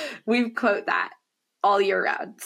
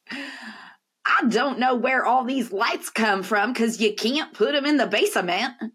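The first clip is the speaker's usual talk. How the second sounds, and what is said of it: Imitated child's Southern accent. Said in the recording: “The most southern sounding. My younger child has a southern accent. ... So that's what my kid sounds like.”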